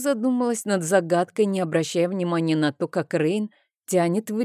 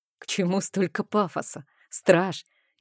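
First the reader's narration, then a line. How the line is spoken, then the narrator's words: Mocking laugh. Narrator (Russian): издевательски рассмеялся Рейн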